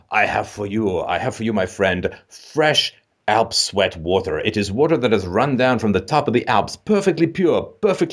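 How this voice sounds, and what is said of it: Put-on accent. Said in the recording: “I don't know why I say this as an accent”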